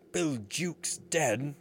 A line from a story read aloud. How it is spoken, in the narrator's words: cried the startled pirates